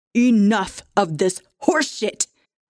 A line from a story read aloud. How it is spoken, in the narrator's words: Ranald bellowed, clearly distraught now